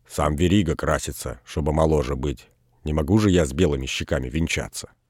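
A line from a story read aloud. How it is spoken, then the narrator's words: Muttering. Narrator (Russian): Он бормотал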